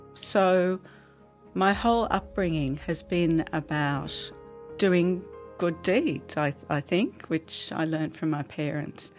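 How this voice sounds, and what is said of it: Emotional, slightly choked-up voice. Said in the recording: “you can hear it's a little bit emotional for me to talk about this.”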